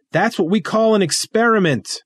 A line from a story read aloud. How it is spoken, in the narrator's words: I yell over the wind